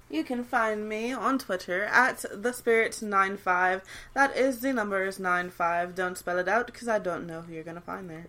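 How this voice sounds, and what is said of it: Posh mid-Atlantic, British-sounding accent. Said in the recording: “Why you say it like you like Regal ... She's a British ghost now ... She's going NPR on it. She's going to go with that mid-Atlantic accent”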